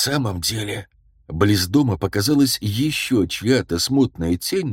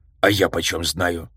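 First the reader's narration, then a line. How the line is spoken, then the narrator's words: Snapping retort. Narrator (Russian): огрызнулся Флуд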